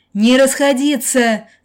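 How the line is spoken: Yelling. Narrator (Russian): заорал Иосиф

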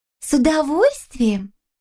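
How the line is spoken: Quick joyful reply. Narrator (Russian): сразу же радостно ответила Тюльпанна

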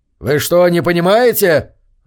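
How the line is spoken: Yelled. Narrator (Russian): заорал Корвин

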